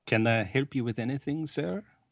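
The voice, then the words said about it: Put-on accent as a waiter. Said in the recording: “we're doing accents now. You're going to be my waiter for the evening.”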